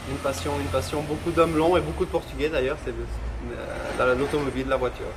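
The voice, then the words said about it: Slight Swiss Vaud French accent. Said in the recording (French): “l'accent vaudois ... Avec un petit accent suisse”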